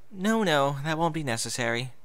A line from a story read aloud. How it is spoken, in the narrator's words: Bon Bon said with a sigh